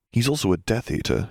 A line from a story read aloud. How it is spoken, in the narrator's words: Harry murmured